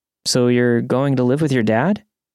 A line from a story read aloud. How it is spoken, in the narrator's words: I asked